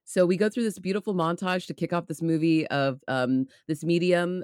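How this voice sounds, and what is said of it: Poor put-on New Zealand accent. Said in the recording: “I'm doing terrible accents today because these guys are from not here. ... Are you going to be trying the New Zealand accent all day?”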